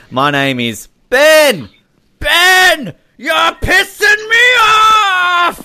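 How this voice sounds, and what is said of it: Shouted impression of a character. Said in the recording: “That's a good impression of the... I have to say, that's a good impression of the schizo dad.”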